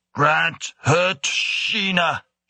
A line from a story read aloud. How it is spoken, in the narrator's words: rasped